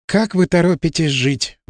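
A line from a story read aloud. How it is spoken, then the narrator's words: Sighed. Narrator (Russian): вздохнула Надежда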